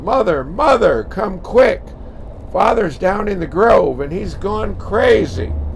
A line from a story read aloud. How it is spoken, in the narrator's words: his daughter Lucy yelled